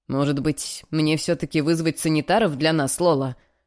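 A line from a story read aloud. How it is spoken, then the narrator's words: Snort. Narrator (Russian): хмыкнул Адам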